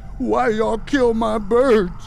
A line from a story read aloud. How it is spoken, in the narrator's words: he screamed